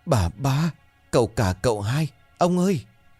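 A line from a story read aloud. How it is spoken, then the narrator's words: Old woman's trembling stammer. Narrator (Vietnamese): Bà gã già nô run rẩy miệng lắp bắp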